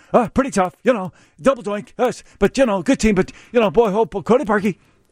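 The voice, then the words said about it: Impression of Kevin Powell. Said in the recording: “That's a really good impression of him.”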